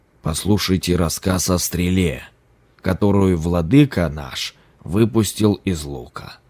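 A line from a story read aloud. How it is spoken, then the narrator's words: Plain. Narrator (Russian): сказал он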